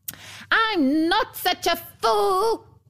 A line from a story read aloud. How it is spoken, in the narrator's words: screamed the dwarf